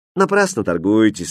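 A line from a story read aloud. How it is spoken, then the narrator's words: Lazy reply. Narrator (Russian): лениво ответил Хрустальт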